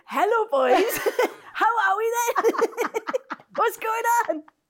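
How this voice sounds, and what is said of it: Attempted sexy voice, Welsh accent. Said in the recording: “do a sexy voice ... I can't in Welsh.”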